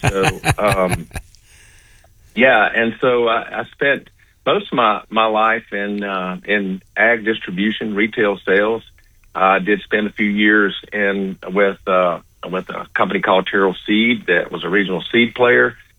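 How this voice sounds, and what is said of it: Louisiana Southern accent. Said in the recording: “Grew up on a farm in Louisiana. You can tell by this accent ... my accent always moved with me”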